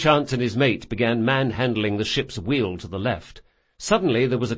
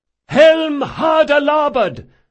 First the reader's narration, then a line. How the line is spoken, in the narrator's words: Drakasha shouted